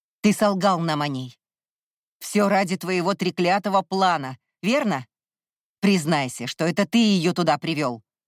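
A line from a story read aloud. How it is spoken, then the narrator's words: Distant bark. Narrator (Russian): рявкнул Кай где-то в отдалении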